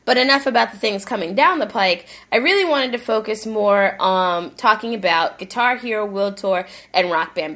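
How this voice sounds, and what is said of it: Congested, stuffed-up nasal voice. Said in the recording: “stuffed up with the sinus stuff right now”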